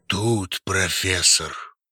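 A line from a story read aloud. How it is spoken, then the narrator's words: Deep bass voice. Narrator (Russian): пробасил крупный детина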